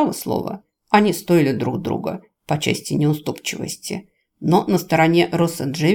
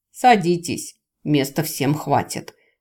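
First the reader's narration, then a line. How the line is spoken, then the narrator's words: Snorting. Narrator (Russian): хмыкнул возница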